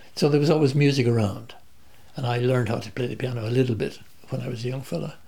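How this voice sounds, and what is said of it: Irish accent, barely any Australian. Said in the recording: “as you can tell from my accent. I haven't picked up much of an Australian accent in 40 years here. ... When I go back to Ireland, they say, you've got an Australian accent.”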